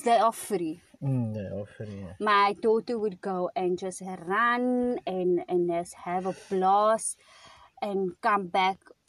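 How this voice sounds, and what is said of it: South African accent. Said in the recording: “our accent, we are from South Africa. We are from Cape Town”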